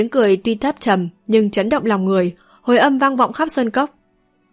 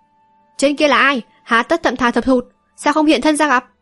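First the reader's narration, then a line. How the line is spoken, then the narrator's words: Deep-voiced shout. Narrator (Vietnamese): Dù Lòng Nhất Kiếm trầm giọng quát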